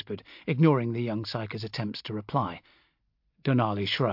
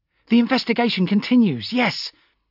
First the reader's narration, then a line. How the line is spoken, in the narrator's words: her flat nasal voice grating against my sleep-deprived nerves